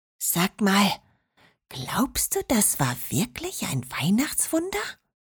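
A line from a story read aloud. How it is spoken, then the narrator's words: Quiet reply. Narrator (German): Marinette antwortete genauso leise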